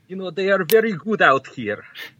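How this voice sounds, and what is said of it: Put-on foreign accent. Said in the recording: “I can talk in this accent all time”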